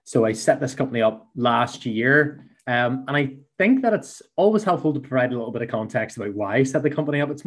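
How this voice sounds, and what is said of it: Belfast Northern Irish accent. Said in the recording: “here in Belfast, which my accent maybe gives away”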